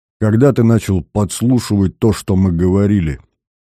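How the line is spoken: Plain. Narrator (Russian): спросил Корнев

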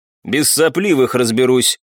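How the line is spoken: Dismissive snort. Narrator (Russian): хмыкнул мужчина

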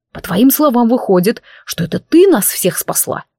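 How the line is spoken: Displeased grumble. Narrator (Russian): недовольно проворчал Змеулан

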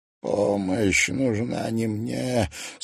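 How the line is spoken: Weak wheeze. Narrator (Russian): слабо прохрипел

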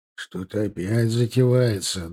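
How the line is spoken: Grumbling from behind. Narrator (Russian): донеслось из-за спины ворчание Антонова

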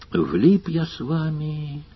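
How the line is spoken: Sad. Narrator (Russian): грустно сказал Паколет

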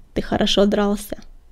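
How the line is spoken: Purring. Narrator (Russian): промурлыкала она

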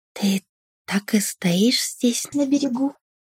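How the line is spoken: Whispered question. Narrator (Russian): шепотом спросила Тая

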